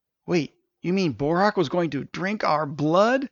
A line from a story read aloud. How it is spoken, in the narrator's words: exclaimed Stavius